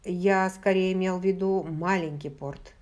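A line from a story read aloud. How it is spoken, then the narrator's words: Plain. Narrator (Russian): сказал Джейми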